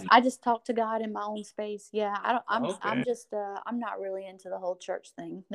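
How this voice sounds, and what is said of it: Strong country accent. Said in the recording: “your accent is very strong. Like, you, like, route, like, cowgirl. Like, cowgirl.”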